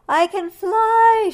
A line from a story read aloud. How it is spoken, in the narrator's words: shouted Hojo